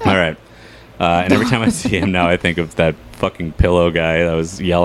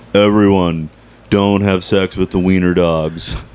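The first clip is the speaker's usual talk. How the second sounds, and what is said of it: Imitates another person's voice. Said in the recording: “I'm going to try to do my John Benjamin impersonation. ... Pretty good.”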